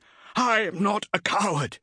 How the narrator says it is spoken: gasped

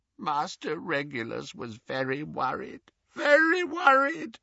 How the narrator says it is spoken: croaked Creature

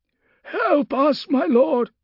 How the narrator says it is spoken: one man pleaded

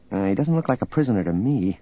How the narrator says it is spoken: Leia muttered

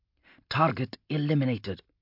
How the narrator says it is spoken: Hanlon breathed

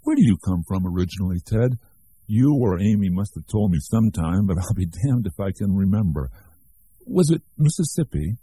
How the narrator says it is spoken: laughed heartily

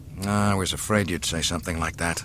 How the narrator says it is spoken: muttered Solo

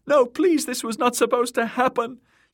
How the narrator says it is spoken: Myrcella shrieking too, her voice shrill with fear

